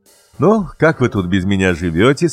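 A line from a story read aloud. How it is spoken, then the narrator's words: Cheerful father. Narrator (Russian): сказал папа весело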